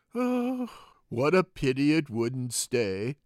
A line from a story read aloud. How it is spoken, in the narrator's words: sighed the lorry